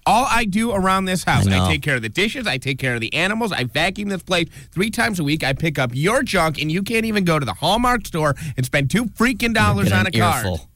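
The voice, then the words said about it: Impression of a nagging spouse. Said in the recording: “That was a really good impression.”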